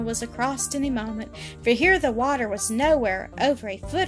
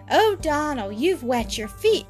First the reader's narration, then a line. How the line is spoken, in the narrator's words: cried Ginevra